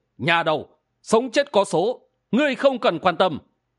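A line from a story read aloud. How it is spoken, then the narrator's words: Middle-aged merchant, cold smirk. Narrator (Vietnamese): Thương nhân trung niên cười nhạt nói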